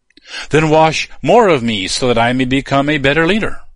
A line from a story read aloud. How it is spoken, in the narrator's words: pleaded